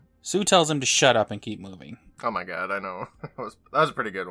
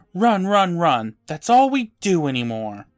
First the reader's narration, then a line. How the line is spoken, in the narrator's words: Eddie yells